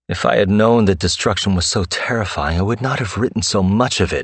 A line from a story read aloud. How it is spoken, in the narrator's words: moaned